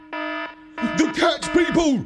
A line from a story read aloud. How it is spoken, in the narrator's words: I barked